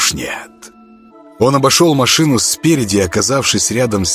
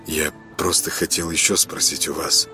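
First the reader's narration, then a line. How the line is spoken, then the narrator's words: Hesitant mumbling. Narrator (Russian): начал кое-как мямлить он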